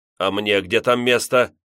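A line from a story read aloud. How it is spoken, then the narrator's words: Thundering voice. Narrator (Russian): прогремел советский президент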